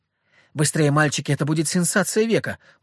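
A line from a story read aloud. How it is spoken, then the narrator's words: Excited female host. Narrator (Russian): взволнованно проговорила ведущая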